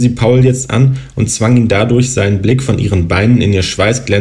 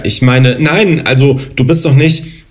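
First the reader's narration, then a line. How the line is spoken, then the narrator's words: Stammering. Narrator (German): stotterte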